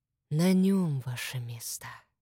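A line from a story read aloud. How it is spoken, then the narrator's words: Hot whisper near ear. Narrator (Russian): жаркий шепот прозвучал над ухом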